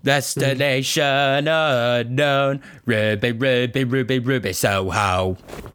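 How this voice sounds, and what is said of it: Imitating a punk singer. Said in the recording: “my impression of punk singers”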